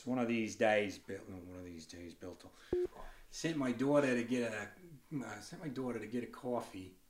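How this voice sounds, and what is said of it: Put-on New Jersey accent. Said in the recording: “So you got to do that to get into the New Jersey accent.”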